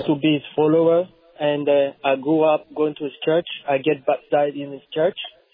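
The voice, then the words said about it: French accent. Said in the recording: “I'm from Congo. Just forgive me with my accent, my French accent.”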